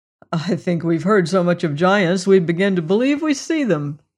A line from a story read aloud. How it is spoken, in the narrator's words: said, laughing